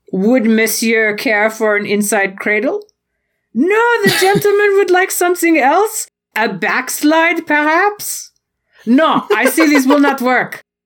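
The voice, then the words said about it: Exaggerated fake French accent. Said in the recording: “I realize I'm not actually doing a French accent. I'm doing an affectation of a French accent”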